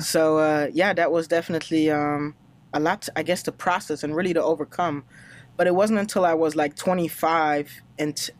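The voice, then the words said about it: Slight Hispanic-influenced English accent. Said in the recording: “kind of why I have this accent, because I was working with just Hispanic guys ... I adopted kind of low-key that accent from those guys”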